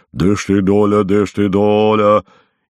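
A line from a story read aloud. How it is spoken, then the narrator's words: Thick scolding voice. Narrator (Russian): ругает кого-то своим толстым голосом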